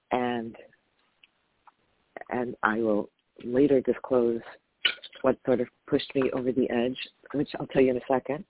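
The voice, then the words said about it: Tired-sounding voice. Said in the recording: “my voice is tired”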